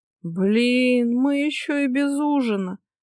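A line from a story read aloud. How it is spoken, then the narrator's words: Groaning. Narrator (Russian): простонала Ника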